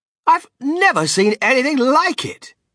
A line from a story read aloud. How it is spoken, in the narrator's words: cried Mr